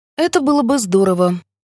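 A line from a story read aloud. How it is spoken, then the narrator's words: More carefree tone. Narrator (Russian): говорю я, наконец, более беззаботным тоном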